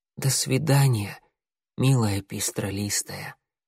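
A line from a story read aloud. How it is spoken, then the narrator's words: Quiet. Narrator (Russian): тихо сказал он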